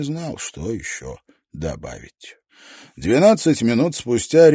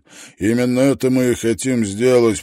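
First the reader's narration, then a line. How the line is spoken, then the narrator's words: Growled. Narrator (Russian): прорычал Шеннон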